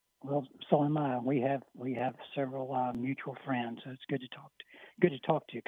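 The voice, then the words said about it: Hoarse, strained voice. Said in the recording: “Excuse my voice; I'm kind of hoarse today. ... you lost your voice a little bit”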